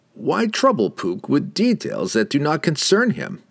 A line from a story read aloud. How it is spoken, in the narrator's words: The wizard laughed